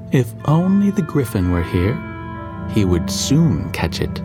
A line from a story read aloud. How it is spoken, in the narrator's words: he exclaimed